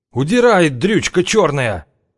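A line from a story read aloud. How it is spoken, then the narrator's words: Guard yelling. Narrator (Russian): заорал охранник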